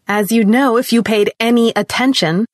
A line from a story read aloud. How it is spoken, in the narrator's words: she continued, her voice rising